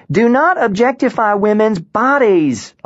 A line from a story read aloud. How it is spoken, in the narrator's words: Alaska shouted